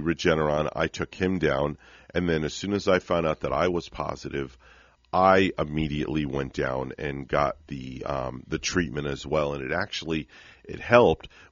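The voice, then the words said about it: Voice not fully healthy. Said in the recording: “I didn't sound 100% on the air ... I'm still not sounding 100%, as you can tell in my voice”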